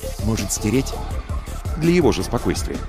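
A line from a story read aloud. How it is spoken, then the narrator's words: Asked in low voice. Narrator (Russian): Алексей спросил вполголоса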